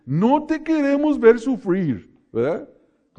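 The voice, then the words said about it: Mock Brazilian accent in Spanish. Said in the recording (Spanish): “como esos brasileños ... Con su acento de ellos.”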